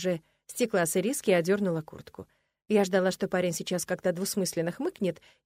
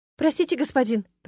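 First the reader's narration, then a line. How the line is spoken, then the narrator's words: Embarrassed girl's babble. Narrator (Russian): пролепетала смущенная девушка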